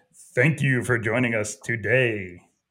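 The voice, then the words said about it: Low, deep radio announcer voice. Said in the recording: “you do need to work a little bit on your radio voice. ... you gotta have that low radio voice.”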